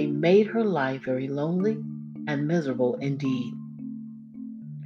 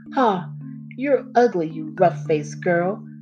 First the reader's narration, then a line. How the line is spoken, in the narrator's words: those two sisters laughed at her, saying